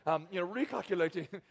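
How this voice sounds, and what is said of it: Put-on British accent. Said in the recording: “the little British lady ... my British accent”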